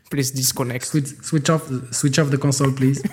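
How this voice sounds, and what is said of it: Put-on Indo-Pakistani accent in English. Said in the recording (French): “tu sais imiter l'accent pakistanais ... L'accent indo-pakistanais”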